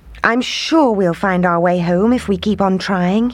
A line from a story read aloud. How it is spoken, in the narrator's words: he said